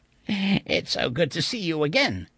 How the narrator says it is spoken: he rasped

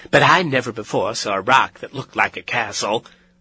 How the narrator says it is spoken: said Aunt Em brightly

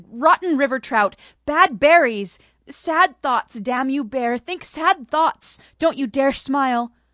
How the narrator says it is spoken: shouted

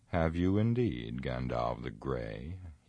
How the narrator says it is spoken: he scoffed

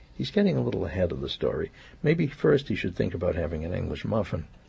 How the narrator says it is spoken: I murmured

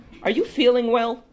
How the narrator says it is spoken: she asked

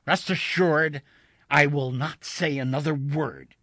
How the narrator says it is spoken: snapped

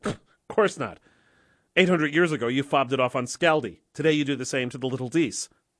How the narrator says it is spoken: Snorting, Loki said

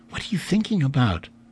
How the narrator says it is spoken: Mary whispered to him

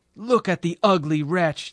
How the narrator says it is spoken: they shouted now

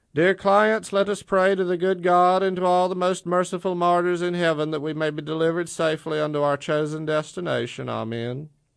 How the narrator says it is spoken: the driver loudly recited

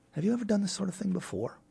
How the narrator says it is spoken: whispered Sir Joan

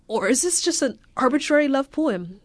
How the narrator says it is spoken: He stammered

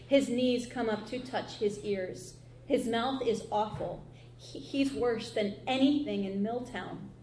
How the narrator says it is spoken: Emma Ann whispered

